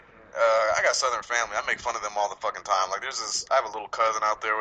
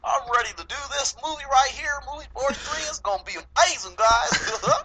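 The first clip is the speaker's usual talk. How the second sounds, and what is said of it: Southern accent with LA tinge. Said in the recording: “You did a very good accent with an LA. You did a Southern accent with an LA accent. That's very talented.”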